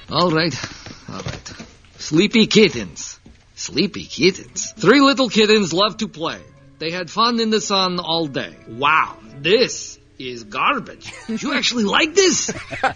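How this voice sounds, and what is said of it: Funny put-on accent. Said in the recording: “That accent kills me.”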